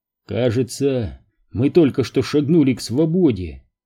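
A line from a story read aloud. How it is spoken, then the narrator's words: Quiet. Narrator (Russian): тихо проговорил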